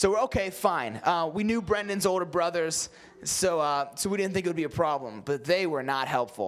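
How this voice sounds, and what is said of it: Usual voice. Nothing is said of it.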